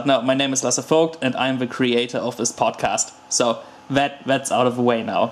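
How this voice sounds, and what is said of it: Non-native German-accented English. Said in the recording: “if my English is not perfect or you have a big problem with my accent”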